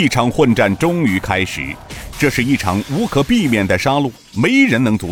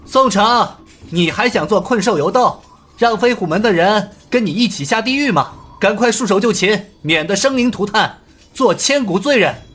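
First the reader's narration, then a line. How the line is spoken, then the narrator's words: Loud. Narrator (Chinese): 尹建平大声道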